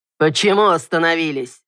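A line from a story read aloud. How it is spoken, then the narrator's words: Irritated male growl. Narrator (Russian): Раздраженно рыкнул мужчина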